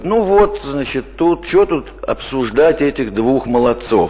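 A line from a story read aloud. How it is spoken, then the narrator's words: Plain. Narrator (Russian): сказал он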